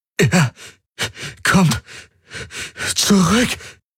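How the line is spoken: Panting heavily. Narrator (German): keuchte er zwischen heftigen Atemzügen

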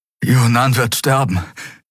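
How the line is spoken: Panting. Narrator (German): keuchte Kai

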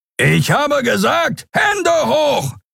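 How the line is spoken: Shouting. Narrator (German): brüllte der Skrier

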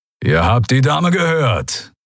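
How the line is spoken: Growled. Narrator (German): knurrte

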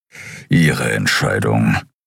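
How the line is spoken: Grumbling. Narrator (German): brummte Keru

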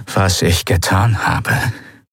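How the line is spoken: Rough-voiced explaining. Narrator (German): erklärte Monaro mit rauer Stimme

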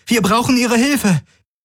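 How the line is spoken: Called out. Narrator (German): rief Kirai

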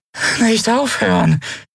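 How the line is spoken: Weak, exhausted croak. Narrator (German): krächzte sie matt und ausgezehrt

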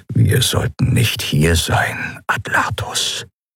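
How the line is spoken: Whisper. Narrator (German): flüsterte Joa

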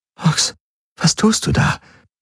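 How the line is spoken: Whispered. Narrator (German): Kirai flüstern

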